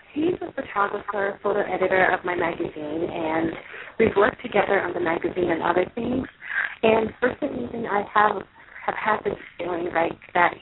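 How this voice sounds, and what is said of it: Raspy, rough voice. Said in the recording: “You sound a little rough. ... my voice is probably a little raspy.”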